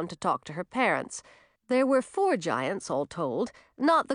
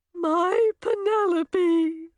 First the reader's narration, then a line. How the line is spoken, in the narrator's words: the mother cried